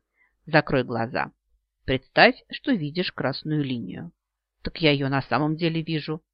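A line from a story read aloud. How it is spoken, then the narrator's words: Grumbling. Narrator (Russian): проворчала я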